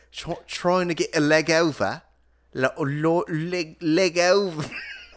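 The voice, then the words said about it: Put-on British accent, crone-like voice. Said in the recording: “Is that not how British people sound? ... you sound like a bridge troll ... You sound like the bridge guardian from Holy Grail ... I don't think they're all crones”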